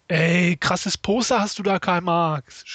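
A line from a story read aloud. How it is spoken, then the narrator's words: Shouted toward another room. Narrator (German): schrie er in Richtung Küche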